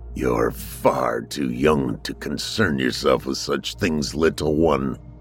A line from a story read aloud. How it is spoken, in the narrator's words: grunted